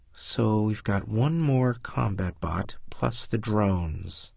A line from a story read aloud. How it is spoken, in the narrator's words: Wilkin muttered